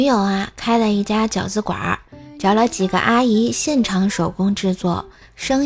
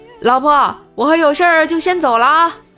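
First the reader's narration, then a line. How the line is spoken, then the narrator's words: Calling out. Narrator (Chinese): 特意向女友喊了一句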